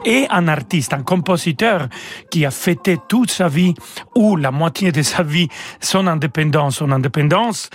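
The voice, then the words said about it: Mexican accent in French. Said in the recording (French): “moi je suis né au Mexique. Peut-être vous ne l'avez pas remarqué par mon euh, accent français”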